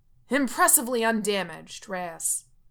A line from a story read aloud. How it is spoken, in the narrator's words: Coach yells